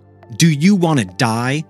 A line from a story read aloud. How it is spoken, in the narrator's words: screamed